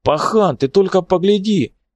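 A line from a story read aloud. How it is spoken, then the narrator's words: Shouted. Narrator (Russian): крикнул он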